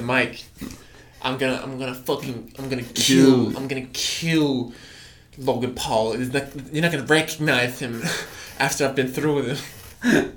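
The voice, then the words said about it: Impression of Floyd Mayweather. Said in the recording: “pretty good impression”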